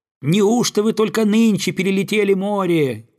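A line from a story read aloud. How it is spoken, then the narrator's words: Shouting. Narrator (Russian): кричали одни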